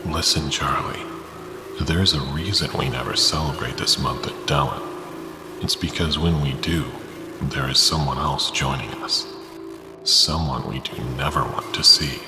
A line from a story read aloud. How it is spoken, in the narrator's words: father whispered